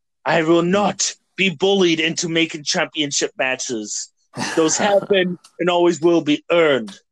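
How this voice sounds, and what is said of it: Imitates another person's voice. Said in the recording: “my Regal impression ... That was a great William Regal impression ... He's got a distinct voice too”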